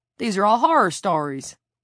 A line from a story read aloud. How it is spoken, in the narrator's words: Hicks exclaimed